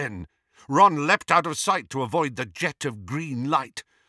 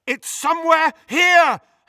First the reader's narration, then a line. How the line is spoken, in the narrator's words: Harry yelled at her